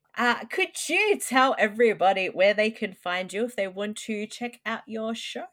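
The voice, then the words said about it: Australian accent. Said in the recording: “I can't pronounce anything. It's the weird Aussie accent.”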